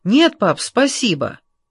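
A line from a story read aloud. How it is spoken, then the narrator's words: Shout. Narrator (Russian): Джордж только крикнул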